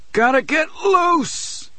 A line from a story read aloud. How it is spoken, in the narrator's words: he says, speaking loudly to no one in particular